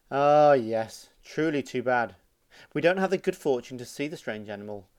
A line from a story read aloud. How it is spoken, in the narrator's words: another one sighed